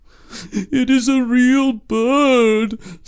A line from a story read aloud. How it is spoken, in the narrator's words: sobbed the emperor